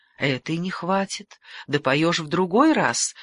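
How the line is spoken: Light sigh. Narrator (Russian): легко вздохнул

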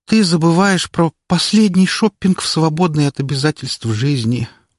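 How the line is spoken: Moaning. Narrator (Russian): простонала Лолька

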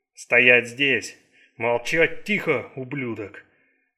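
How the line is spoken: Growled in broken English. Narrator (Russian): прорычал мужчина на плохом английском

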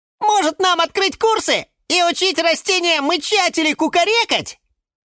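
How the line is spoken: Squeaky little voice. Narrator (Russian): пискнула фиалка Наталка

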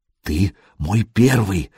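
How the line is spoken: Whisper. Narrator (Russian): шепнула Буданка

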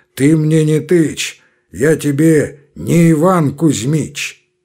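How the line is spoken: Hoarse bass, cutting off. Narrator (Russian): отчаянный обрывал хриплым басом

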